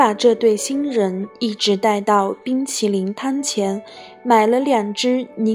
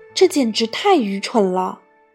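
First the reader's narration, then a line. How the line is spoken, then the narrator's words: Plain. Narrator (Chinese): 她说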